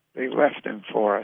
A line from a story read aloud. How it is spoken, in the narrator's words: I said almost in a whisper